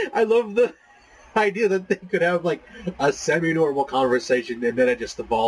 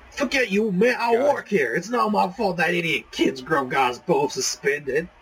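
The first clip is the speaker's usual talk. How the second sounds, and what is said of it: Character voice. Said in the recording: “try this Danny voice.”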